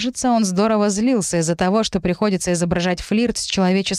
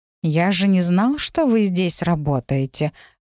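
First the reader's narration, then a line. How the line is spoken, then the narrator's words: Sighing. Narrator (Russian): вздохнул Сигизмунд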